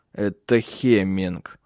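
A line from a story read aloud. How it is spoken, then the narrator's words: Through gritted teeth. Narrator (Russian): сквозь зубы процедил Тенгель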